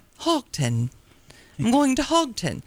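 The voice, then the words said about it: Put-on British accent. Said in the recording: “Can you say it in your British accent?”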